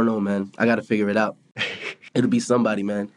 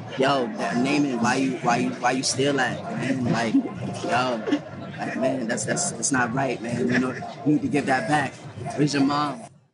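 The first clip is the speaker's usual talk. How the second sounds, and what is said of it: Imitates another person's voice. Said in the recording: “very good impressions of Drake”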